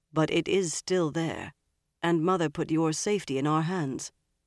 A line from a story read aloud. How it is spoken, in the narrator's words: Galad told Elaine gravely